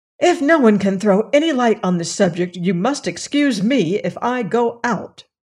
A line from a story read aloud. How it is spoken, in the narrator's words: a chafing dish exclaimed irritably